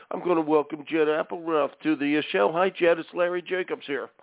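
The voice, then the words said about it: Philadelphia accent. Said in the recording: “Do I still have my Philly accent? ... I hear the Philly accent.”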